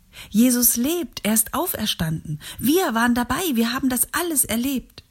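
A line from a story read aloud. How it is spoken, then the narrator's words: Shouting first. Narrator (German): Petrus rief als erster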